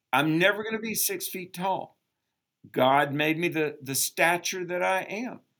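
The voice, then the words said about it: Southern American accent. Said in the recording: “I have a Southern accent because I was born in the South... they make fun of me because of my Southern accent”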